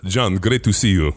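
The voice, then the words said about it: Russian accent. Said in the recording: “Russian accent.”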